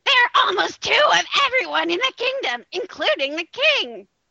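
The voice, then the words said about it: Squeaky character voice. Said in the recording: “squeaky voice”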